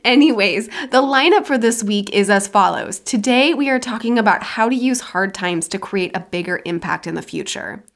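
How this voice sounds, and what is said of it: Voice affected by a cold. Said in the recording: “I'm still at the tail end of this cold ... my voice is a little off here and there”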